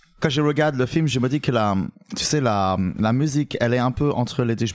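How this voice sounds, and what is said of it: French spoken with English accent. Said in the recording (French): “Marwan m'a demandé de faire l'anglais. ... Avec l'accent! ... Ah oui, l'accent.”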